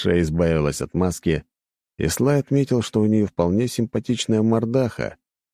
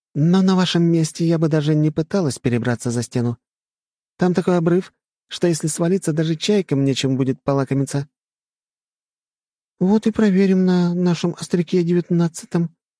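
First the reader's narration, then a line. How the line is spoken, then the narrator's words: Innocent chirping voice. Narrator (Russian): невинным голоском прощебетала Твин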